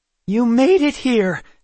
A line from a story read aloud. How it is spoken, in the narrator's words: Kendra cried